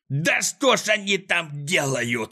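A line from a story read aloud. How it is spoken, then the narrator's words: Furious yelling. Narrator (Russian): орал Клопс, наливаясь от злости кровью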